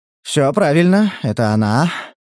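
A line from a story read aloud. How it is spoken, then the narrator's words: Relieved breathless exhale. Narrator (Russian): выдохнул Стас, чувствуя, как сердце переходит с галопа на аллюр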